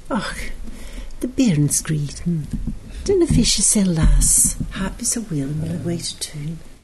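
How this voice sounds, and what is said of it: Broad Scottish accent. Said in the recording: “a broad Scottish accent? ... She spoke in Scots.”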